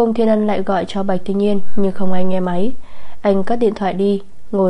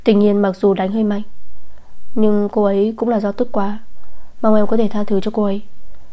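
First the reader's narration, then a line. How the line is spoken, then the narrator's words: Gently. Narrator (Vietnamese): Nam Cung Thiên Ân dịu dàng nói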